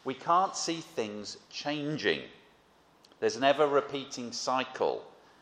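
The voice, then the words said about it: Frustrated, heated delivery. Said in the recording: “as you can probably tell from my voice, and I'll calm down now, a growing frustration”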